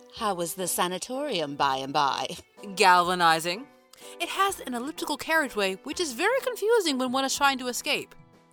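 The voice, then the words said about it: Put-on pretentious British accent. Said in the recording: “I really like the British accent... Her accent's a little pretentious”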